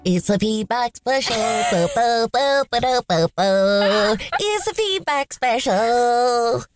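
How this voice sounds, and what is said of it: Crazy-sounding silly put-on voice. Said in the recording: “doing that voice ... sound totally psychotic ... it sounds pretty crazy ... Just psychotic enough”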